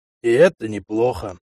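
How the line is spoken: Grumble. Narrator (Russian): проворчал Верзила

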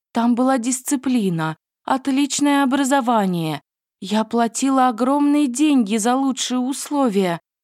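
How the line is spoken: Sobbing. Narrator (Russian): рыдала она

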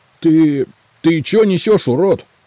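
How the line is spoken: Shout. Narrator (Russian): наконец крикнул он

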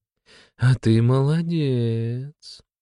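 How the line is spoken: Affectionate. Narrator (Russian): ласково сказала глава Скалопендр

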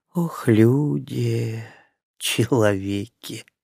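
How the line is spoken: Woman's faint sigh. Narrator (Russian): едва заметно вздохнула женщина

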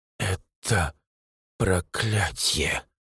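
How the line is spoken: Quiet, clear. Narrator (Russian): тихо и четко произносит она

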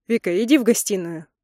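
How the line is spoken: Irritated. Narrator (Russian): Он раздраженно добавляет

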